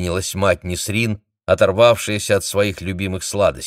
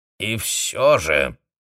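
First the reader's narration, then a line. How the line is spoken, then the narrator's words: Insistent creaky voice. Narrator (Russian): настойчиво продолжила Ава скрипучим голосом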